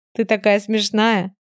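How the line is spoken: Speaking through laughter. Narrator (Russian): сквозь смех говорит

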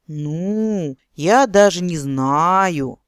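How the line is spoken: Disappointed nasal voice. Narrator (Russian): разочарованно прогнусавил Эрин

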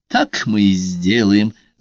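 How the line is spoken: Loud laughing reply. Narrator (Russian): с громким хохотом ответила Карла

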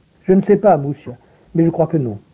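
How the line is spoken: Grave, thoughtful reply. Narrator (French): répondit Werner d'un ton grave et pensif

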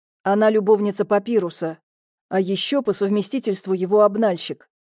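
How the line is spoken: Plain. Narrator (Russian): ответил Михаил

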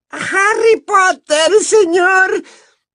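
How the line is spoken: Squeal. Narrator (Spanish): chilló

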